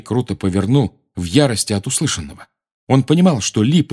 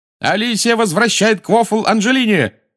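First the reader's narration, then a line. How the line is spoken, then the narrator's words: Shouted. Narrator (Russian): закричал Ли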